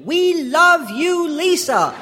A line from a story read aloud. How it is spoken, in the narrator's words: I'd call